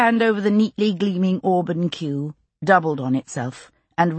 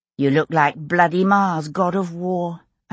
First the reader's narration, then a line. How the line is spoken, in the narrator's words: I said dryly